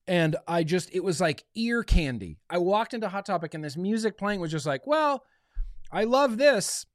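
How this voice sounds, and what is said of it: Strained, fading voice. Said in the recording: “I feel like I'm losing my voice.”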